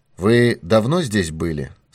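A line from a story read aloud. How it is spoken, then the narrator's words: Plain. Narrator (Russian): спросил он лакея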